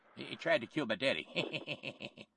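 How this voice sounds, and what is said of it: George W. Bush impression. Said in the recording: “do the stupid Bush voice”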